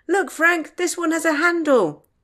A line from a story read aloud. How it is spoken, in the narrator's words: Tom called out